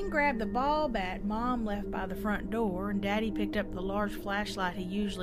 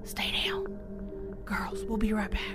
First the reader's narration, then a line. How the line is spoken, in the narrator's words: He whispered